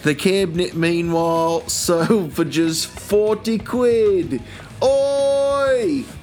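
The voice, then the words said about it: Put-on accent, well done. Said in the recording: “that was a wonderful accent ... I didn't even realize I'd gone into it.”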